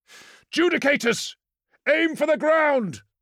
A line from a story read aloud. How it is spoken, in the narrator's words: shouted Thostos